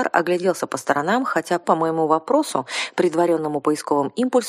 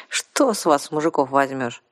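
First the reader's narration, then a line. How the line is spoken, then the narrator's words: Sighing woman. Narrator (Russian): вздохнула Арсана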